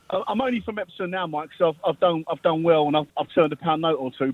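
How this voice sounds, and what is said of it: Cockney accent. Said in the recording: “my real strong sort of Cockney accent ... You've still got it, mate.”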